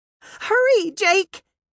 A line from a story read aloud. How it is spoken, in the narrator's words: Maggie cried